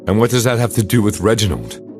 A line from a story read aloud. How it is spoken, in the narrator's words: I asked